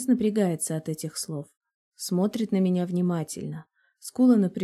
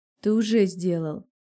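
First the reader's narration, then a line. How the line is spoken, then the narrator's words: Hoarse rasp. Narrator (Russian): хриплю я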